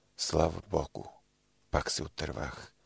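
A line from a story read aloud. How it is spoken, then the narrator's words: Relieved sigh. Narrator (Bulgarian): Въздъхнал облегчено и рекал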